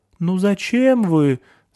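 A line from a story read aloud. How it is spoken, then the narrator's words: Frightened. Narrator (Russian): сказал он испуганно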